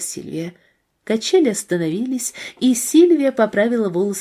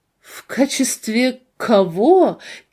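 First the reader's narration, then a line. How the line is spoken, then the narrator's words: Loud laughter. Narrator (Russian): Кейси шумно засмеялась, будто она никогда ничего смешнее не слышала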